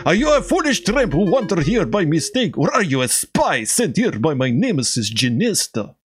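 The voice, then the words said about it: Put-on Russian accent. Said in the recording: “She needs a Russian accent, doesn't she?”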